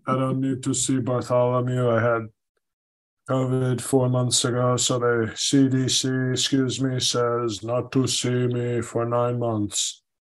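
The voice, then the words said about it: Deep-voiced impression. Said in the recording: “as his voice get deeper and chest hair come in, I do better impression ... Very, very, very, very good impression”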